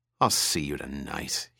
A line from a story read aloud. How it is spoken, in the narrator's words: he finished bitterly